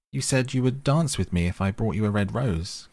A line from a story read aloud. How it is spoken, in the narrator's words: cried the student